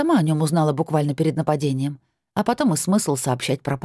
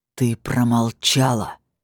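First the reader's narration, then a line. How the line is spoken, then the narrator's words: Growled. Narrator (Russian): рыкнул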